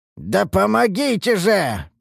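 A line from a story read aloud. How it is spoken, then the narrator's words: Hoarse croak. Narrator (Russian): прохрипел я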